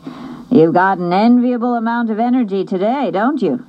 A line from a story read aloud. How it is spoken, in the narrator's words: laughed